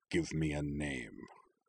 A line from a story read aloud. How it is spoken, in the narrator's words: he growled